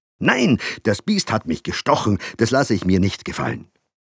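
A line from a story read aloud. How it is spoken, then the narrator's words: Father answering angrily. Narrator (German): antwortete der Vater wütend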